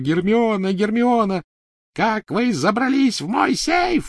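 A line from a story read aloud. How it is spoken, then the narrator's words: Shrieking. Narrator (Russian): визжала Беллатриса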